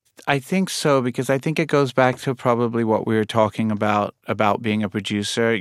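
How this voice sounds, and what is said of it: Mixed British and New York accent. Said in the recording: “you can put on your British accent when you want and your New York accent when you want ... I hear, like, a mix of both in your speaking voice”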